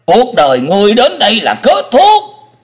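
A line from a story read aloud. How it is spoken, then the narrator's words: Hissing. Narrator (Vietnamese): Hải Ma giáo chủ rít lên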